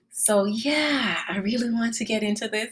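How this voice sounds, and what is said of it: Excited, eager voice. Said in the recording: “If you can tell by my voice, I'm truly excited about it.”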